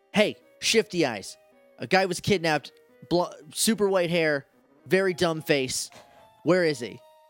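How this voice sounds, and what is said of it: Put-on cop voice. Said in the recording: “in my best cop voice”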